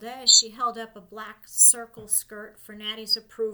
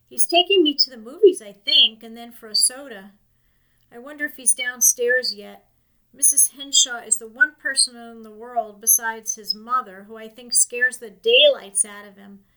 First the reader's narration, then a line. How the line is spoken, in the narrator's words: laughed Natty